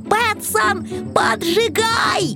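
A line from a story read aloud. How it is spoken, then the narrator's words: Yelling. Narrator (Russian): завопил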